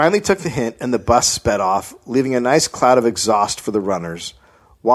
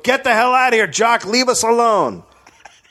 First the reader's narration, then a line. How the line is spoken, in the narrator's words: Arnie screamed at Jock